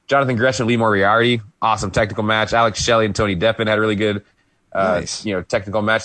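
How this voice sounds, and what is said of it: Hoarse voice. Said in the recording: “hoarse. ... I can't sing the high notes.”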